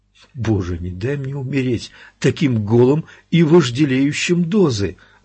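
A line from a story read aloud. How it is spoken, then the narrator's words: Pleading. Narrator (Russian): взмолился Эдди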